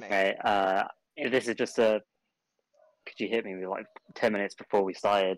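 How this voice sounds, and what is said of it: British accent. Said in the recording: “you can definitely tell that he is British because of his accent ... not a fake one ... Not a fake accent”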